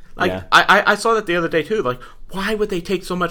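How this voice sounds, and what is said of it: Talking really fast. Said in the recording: “I'm talking really fast”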